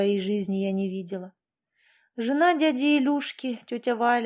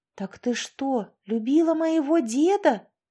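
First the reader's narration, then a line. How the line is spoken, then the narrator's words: Exclaimed. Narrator (Russian): воскликнула Полина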